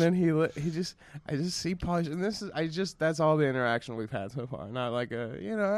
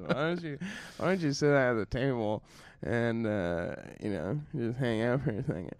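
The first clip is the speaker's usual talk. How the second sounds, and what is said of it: Imitates another person's voice. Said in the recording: “I still can't do a good Pauly Shore impression.”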